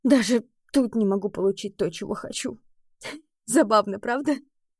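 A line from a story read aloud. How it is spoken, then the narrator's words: Nervous laugh, then sob. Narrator (Russian): Издав нервный смешок, я тут же всхлипываю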